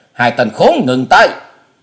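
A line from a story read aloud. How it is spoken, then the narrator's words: Old man's thunderous shout. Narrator (Vietnamese): tiếng thét của lão già tựa như sấm nổ lưng trời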